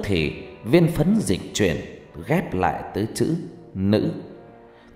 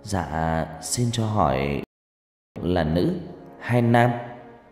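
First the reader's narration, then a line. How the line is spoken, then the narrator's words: Trembling question. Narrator (Vietnamese): Thằng Linh cất giọng run run hỏi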